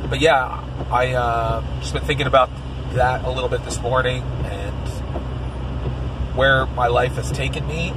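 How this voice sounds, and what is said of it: Phlegmy voice that may crack. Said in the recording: “I'm so phlegmy that my voice is like, ah, ah... so it may crack a little bit”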